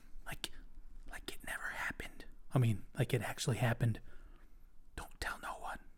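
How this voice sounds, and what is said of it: Whispering. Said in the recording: “I'm whispering like this”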